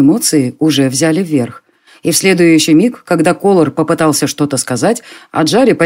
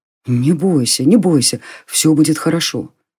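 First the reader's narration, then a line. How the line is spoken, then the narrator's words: Anxious whisper. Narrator (Russian): встревоженно зашептал он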